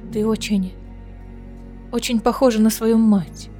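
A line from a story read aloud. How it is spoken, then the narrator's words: Quavering voice. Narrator (Russian): дрогнувшим голосом произнесла Аэлина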